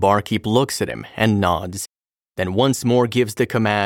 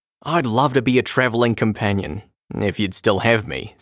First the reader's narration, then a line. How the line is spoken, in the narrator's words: says the distiller